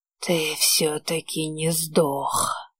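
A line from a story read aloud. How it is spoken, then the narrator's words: Creaky voice. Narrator (Russian): проскрипела она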